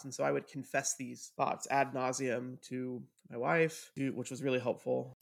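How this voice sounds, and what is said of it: Sarcastic delivery. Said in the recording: “I'd say that sarcastically. Sarcasm and bitterness are my love language.”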